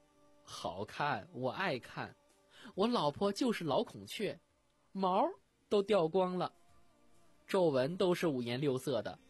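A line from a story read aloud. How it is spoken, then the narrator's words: Ingratiating smile. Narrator (Chinese): 点子赶紧陪笑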